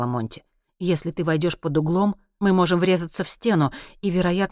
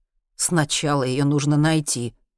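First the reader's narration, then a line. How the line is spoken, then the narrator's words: Wry snort. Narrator (Russian): хмыкнул Генри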